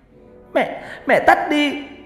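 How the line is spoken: Child's sudden scream. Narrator (Vietnamese): con bé Nhi bỗng hét lên

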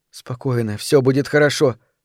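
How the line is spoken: Whisper. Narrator (Russian): прошептала я

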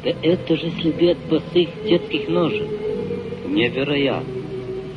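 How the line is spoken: Muttered. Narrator (Russian): Пробормотал он

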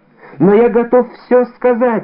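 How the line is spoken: Exclaiming. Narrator (Russian): воскликнул Бонасье

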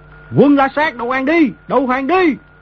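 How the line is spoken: Thousands shouting in unison. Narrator (Vietnamese): tiếng mấy ngàn người đồng thanh quát lớn

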